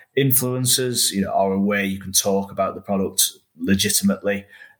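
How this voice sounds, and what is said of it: Northern English accent. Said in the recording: “your accent. You're from the Northwest, right? ... From the North.”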